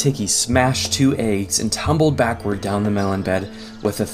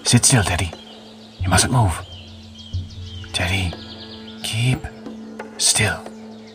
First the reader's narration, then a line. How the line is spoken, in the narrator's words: all his father could do was to whisper